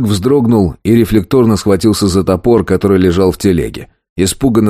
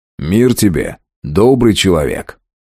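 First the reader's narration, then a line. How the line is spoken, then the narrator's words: Very friendly voice. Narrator (Russian): Я максимально дружелюбным голосом проговорил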